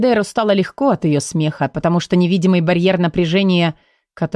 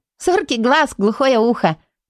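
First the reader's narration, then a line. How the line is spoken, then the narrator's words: Laughing. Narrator (Russian): рассмеялась она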